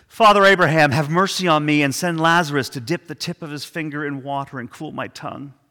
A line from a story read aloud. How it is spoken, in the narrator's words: The rich man, in his torment, he cried out